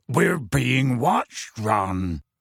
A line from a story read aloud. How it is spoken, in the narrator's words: he said gruffly